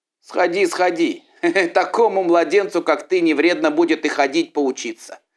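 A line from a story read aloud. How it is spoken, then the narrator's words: Shouted after him. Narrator (Russian): Закричали ему вслед братья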